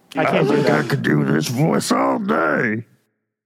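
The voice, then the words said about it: Hogum character voice. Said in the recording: “Can you give me a little hoagie right now? ... you even have, like, inflection and tone in your voice whenever you, like, speak Hogum.”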